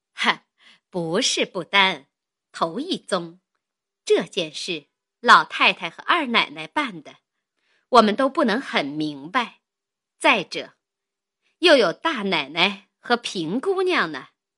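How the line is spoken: Laughing. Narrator (Chinese): 林家的笑道

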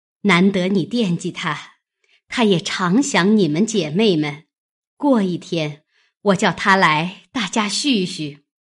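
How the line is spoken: Laughing. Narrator (Chinese): 笑道

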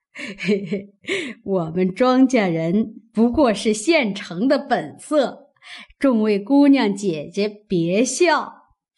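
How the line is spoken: Laughing. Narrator (Chinese): 刘姥姥也笑道

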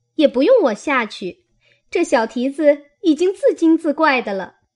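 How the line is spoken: Laughing. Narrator (Chinese): 晴雯笑道

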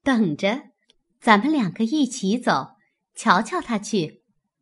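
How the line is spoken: Laughing woman. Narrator (Chinese): 宝钗笑道

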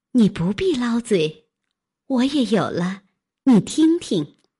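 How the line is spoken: Sudden laugh. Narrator (Chinese): 黛玉 半日猛然笑道

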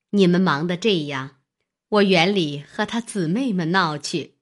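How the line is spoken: Laughing. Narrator (Chinese): 尤氏笑道

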